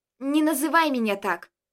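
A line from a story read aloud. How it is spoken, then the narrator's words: Angry. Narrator (Russian): Сказала она сердито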